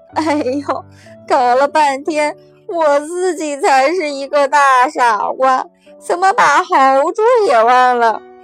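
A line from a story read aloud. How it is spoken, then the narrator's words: Loud laughter. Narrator (Chinese): 那黑影大笑着说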